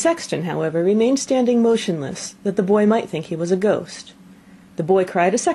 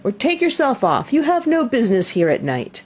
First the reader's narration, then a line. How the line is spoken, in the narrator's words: cried the boy